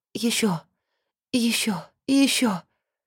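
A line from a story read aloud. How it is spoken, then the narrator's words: Whisper. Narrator (Russian): шептала она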